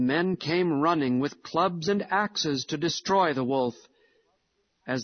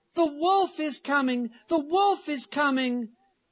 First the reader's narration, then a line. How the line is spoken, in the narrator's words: in order to have some fun, he cried out with all his might